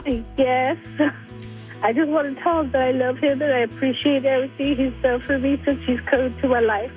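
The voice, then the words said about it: Choked-up, emotional voice. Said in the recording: “You're getting a little choked up.”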